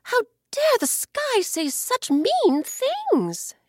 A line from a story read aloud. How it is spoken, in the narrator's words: she cried